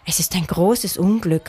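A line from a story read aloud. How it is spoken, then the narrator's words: Sighed. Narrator (German): seufzte Lotta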